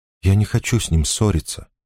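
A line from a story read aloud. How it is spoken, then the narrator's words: Whisper. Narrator (Russian): прошептала она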